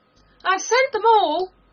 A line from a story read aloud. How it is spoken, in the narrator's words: the King cried in a tone of delight